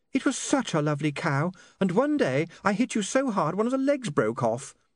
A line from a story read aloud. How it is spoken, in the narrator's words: said Saccharissa dreamily